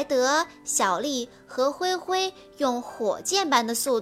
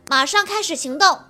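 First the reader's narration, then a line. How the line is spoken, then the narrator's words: Loud. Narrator (Chinese): 灰灰也大声地说道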